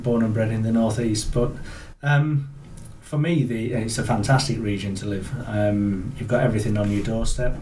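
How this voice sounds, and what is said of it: Northern English accent. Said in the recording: “as you can tell from my accent. So originally from Yorkshire, moved up in 2001.”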